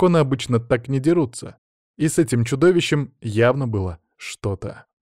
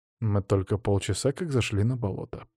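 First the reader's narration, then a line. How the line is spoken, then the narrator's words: Mumbling. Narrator (Russian): пробормотал Алексей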